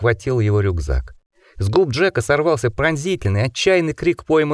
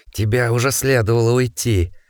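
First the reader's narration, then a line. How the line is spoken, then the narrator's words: Hoarse animal growl. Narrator (Russian): Голос становился все более хриплым, все сильнее напоминал рычание животного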